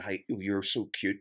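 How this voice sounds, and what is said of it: Put-on American accent. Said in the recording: “He was an American. An American accent.”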